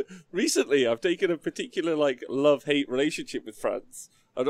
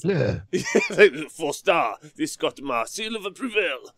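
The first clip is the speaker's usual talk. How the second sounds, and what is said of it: Weak put-on French accent. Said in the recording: “I've started doing a review in a French accent for some reason ... But I don't think it sounds very French”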